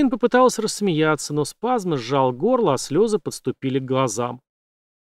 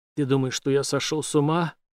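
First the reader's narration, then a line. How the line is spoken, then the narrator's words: Whisper. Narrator (Russian): в ответ прошептал Брейс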